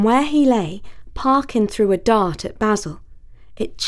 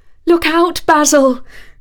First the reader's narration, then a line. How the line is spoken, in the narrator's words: screamed Talia